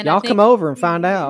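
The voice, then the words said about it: Put-on Southern accent. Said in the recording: “My Southern accent.”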